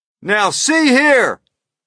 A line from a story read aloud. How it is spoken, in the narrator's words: shouted the chief of police